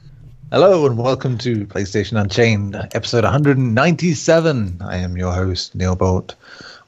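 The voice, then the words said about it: Relaxed, deep radio-host voice. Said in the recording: “with my radio voice on because I've had a beer and a half. So it means I'm a little more relaxed, a little more chilled out”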